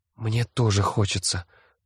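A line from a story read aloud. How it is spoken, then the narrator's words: Whisper. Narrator (Russian): прошептала Лиззи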